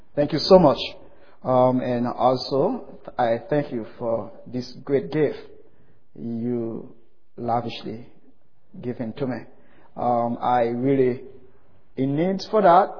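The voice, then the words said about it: Foreign accent. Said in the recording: “Even the accent is not really proper to you”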